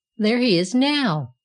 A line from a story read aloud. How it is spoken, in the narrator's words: cried the Right Hand Iron